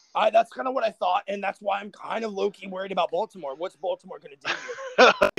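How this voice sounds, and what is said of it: Hoarse, worn-out old-man-sounding voice. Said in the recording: “You sound like an old man. ... I've lost my voice yelling”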